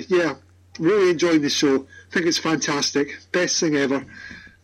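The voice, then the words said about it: Scottish accent. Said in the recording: “a Scotsman ... He's from Scotland. He lives in Edinburgh.”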